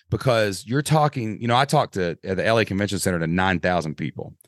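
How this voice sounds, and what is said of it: Southern Kentucky accent. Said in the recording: “you're a good old Southern Kentucky boy, but there's like some extra Kentucky there ... because I have an accent ... I talk crazy”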